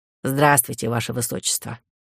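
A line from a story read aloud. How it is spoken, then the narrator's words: Cold. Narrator (Russian): холодно проговорила Кларина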